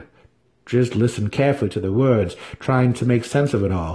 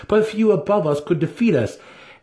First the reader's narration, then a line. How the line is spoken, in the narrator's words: Dinan laughed